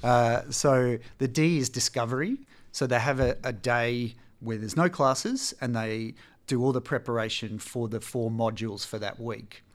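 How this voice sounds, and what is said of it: Speaks with a noticeable accent. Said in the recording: “sorry about the accent”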